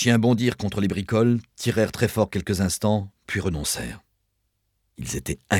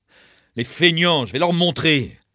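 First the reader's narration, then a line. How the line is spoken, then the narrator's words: Shouted. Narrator (French): cria-t-il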